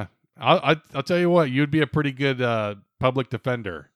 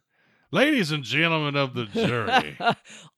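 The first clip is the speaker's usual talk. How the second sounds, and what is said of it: Put-on Southern courtroom lawyer accent. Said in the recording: “Always the Southern accent.”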